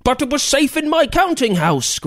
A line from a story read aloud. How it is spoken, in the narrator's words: Griswold shouted